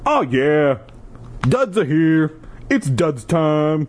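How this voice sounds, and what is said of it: Pauly D Jersey Shore impression. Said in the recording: “now I have to try to do a Pauly D voice the entire time. ... That was my Jersey Shore impersonation.”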